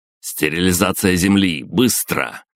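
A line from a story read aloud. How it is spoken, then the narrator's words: Barked command. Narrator (Russian): гаркнул я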